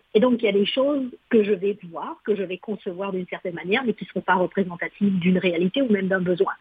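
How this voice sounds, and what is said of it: Foreign accent in French. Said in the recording (French): “vous l'entendez à mon accent, je suis pas née ici”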